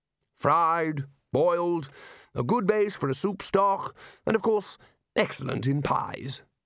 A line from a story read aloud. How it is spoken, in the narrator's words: said the Arch-Chancellor happily